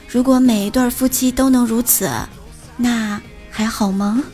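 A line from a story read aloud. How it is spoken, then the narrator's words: Sighing with emotion. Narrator (Chinese): 大辉感叹道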